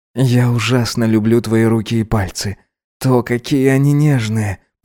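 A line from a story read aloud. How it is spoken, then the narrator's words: Tender whisper. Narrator (Russian): прошептал ему Гидеон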